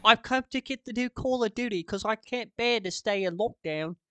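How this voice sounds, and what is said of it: Put-on British accent. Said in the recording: “You gotta say it in a British accent.”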